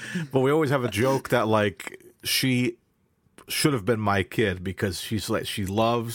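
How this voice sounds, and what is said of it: Usual voice. Nothing is said of it.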